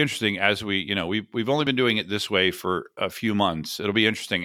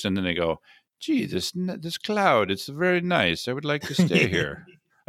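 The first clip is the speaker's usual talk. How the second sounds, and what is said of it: Put-on accent. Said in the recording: “I don't know why I did that with an accent”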